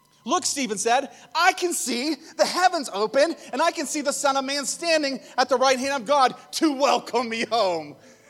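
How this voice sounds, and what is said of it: Shouting. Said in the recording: “sorry I'm shouting”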